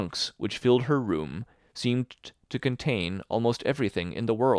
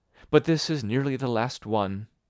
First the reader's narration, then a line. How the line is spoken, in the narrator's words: she would add, with a sigh